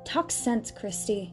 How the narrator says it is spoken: said irritably

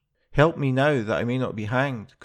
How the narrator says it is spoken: cried the soldier

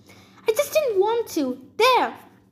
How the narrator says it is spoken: A woman screamed

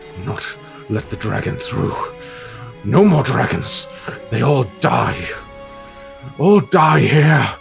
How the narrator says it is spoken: he sort of snarls at you and goes

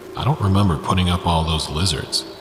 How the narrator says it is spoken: George mutter

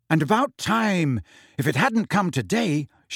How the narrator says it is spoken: she said eagerly

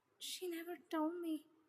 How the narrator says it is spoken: Taeyong muttered as the reality hit him like a bus

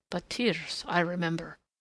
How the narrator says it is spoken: the nurse muttered

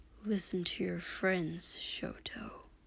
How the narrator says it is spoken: Dobby said quietly, that awful, grating lucidity returning to his voice again

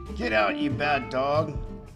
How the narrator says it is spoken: Aunt Sarah yelled

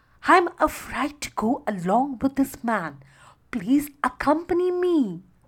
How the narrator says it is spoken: she pleaded

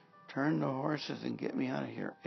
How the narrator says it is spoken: Ahab groaned to the driver of his chariot

